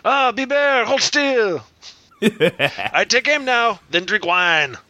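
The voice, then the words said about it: Bad put-on French accent. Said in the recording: “doing a shitty French accent”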